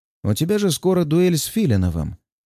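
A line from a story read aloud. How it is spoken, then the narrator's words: Calm with metallic edge. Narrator (Russian): произносит он спокойно, но с металлическим оттенком в интонации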